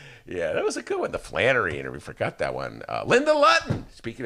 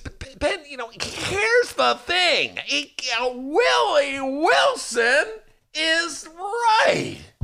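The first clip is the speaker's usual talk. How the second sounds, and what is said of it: Imitates another person's voice. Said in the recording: “that is your best impression ... That's my Mike Flannery ... Ah, damn, that's good”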